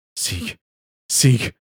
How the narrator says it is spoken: I said desperately, trying to jolt my brain to the task

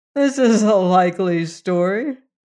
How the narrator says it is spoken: said Leonard, laughing

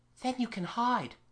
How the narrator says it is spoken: in a whisper

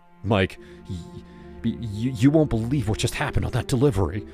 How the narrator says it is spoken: I stammered

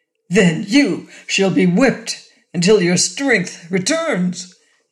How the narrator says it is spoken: exclaimed the queen

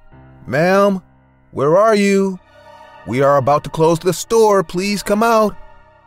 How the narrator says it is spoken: I even called out to her

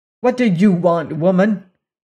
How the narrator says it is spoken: exclaimed Leonard

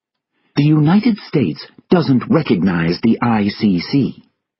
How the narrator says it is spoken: the American ambassador said angrily

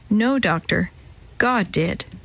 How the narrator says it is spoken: she replied quietly

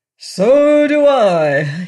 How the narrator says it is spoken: yelled every officer in a fervent tone

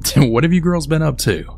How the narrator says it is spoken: Becky's dad had then started to laugh and then said

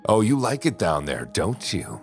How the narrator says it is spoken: She'd laugh from the top of the stairs

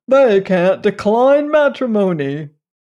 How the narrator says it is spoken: chuckled Uncle Benjamin

